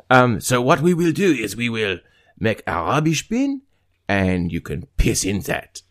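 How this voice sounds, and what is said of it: Exaggerated fake French accent. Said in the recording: “some kind of a fucked up French accent ... French Joe ... my French accent”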